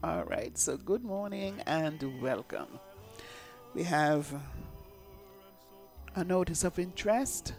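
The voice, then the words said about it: Slightly hoarse voice. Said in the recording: “I'm a little hoarse”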